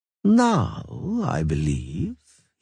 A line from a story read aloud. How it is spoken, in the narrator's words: he said slowly